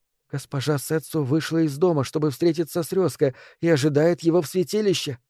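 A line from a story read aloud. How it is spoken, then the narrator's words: Whispered. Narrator (Russian): Он прошептал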